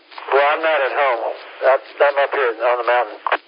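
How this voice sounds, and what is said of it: Voice sounds a little muffled. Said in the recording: “you sound a little muffled.”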